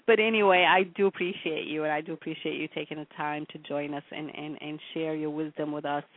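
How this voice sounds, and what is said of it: Slightly hoarse voice. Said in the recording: “I apologize for my voice, you know, a little hoarsey.”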